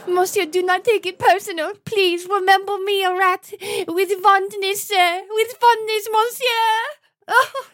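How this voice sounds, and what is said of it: Put-on French accent. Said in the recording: “you chose a French accent”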